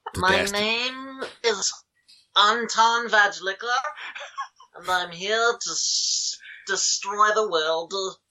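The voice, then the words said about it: Villain voice, unplaceable put-on accent. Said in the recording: “I don't know what that accent that is. Nobody does. He has no origin.”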